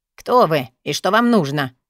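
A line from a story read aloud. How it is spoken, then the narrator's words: Stern old woman's question. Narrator (Russian): спросила старуха строгим тоном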